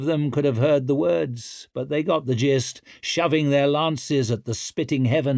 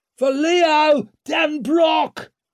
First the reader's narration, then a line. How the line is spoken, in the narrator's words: roared Antalp